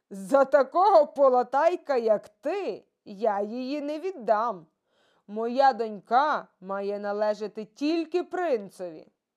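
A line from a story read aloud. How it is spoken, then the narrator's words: Emperor laughing. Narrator (Ukrainian): Цісар засміявся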